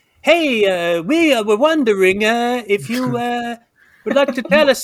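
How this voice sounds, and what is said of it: Put-on Italian accent. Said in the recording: “That's how you sound Italian, right?”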